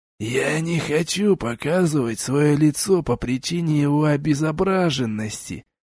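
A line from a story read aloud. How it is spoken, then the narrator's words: Hoarse rasp. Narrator (Russian): прохрипел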